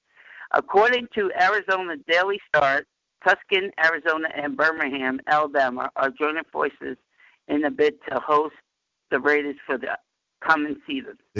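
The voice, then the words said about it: New York accent. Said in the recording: “I'm from New York. I got an accent, you know, weird accent.”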